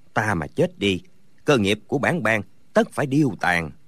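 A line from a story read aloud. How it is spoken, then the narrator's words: Muttering. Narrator (Vietnamese): Có người lẩm bẩm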